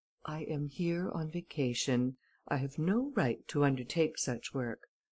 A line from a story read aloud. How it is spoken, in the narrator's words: replied calmly